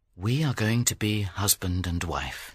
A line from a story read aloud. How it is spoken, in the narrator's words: he said gently